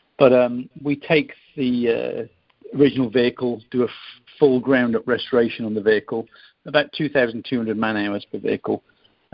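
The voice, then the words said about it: British accent. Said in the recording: “British vehicles, as you probably sense from my accent”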